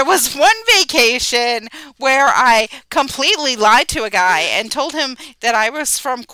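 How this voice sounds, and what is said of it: Usual voice. Nothing is said of it.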